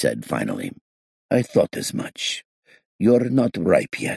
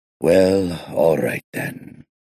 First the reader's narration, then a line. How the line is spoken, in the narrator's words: he sighed